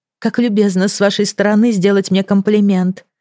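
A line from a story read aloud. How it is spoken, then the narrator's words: Plain. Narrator (Russian): ответила Фиона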